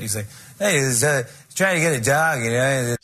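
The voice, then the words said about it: Weak Norm MacDonald impression. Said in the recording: “this guy had a very crazy accent ... a weak Norm MacDonald impression”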